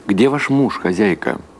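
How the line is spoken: Plain. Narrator (Russian): спросил Гершель

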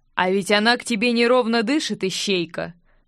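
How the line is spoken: Short chuckle. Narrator (Russian): хохотнул король

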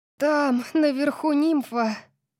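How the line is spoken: Breathless gasp. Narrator (Russian): выдохнула я

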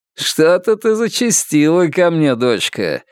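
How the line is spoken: Sly mocking tone. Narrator (Russian): ехидно произнес управляющий заводом

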